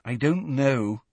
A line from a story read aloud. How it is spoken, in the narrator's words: said Hermione miserably